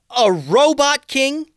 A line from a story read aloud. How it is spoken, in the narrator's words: yelled Tatiana, full on angry